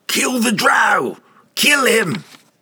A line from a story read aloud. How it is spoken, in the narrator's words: shouting